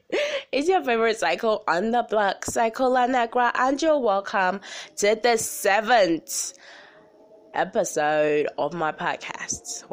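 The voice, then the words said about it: Congested, stuffy-nosed voice. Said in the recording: “I have a cold again, as usual”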